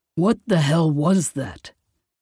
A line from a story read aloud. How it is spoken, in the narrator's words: Ire sharpened Kai's question into a growl